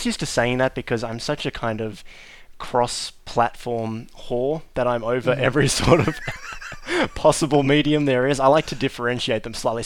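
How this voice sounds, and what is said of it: Australian accent. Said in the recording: “Australian accents like mine ... this Australian-ish accent that could be Australian, it could be British, could be South African ... that sort of British roots to it”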